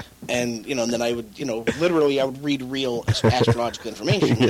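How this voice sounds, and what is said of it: Usual voice. Nothing is said of it.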